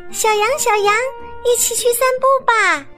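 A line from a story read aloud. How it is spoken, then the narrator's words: Chick calling while walking. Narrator (Chinese): 小鸡球球边走边叫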